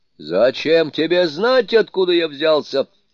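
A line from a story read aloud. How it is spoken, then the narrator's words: Shouting back. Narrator (Russian): крикнул в ответ Суню-кун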